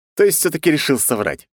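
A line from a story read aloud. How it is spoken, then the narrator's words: Snort. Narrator (Russian): хмыкнул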